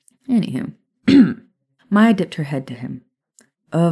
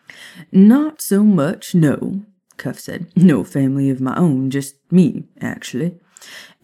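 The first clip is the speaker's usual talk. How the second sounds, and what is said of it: Put-on Southern American accent. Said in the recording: “I used this accent ... people with Southern accents”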